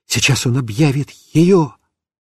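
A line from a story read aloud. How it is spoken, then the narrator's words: Whispered. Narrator (Russian): я шептал папе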